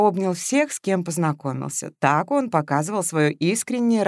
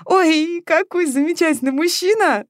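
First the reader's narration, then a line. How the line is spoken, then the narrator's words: Squeal. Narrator (Russian): взвизгнула Дуська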